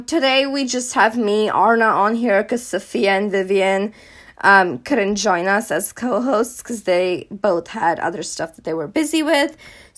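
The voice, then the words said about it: Slightly hoarse voice. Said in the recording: “I'm just like recovering from being sick, so my voice is a little hoarse.”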